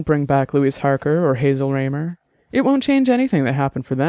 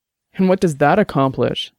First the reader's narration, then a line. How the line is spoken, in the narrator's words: Dex asked bitterly